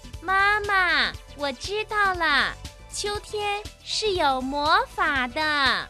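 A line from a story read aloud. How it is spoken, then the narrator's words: Loud little mouse voice. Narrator (Chinese): 小老鼠，大声地说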